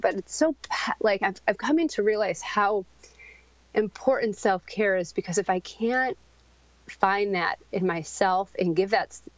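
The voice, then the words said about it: Shaky, emotional voice. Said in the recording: “sorry if my voice is shaking”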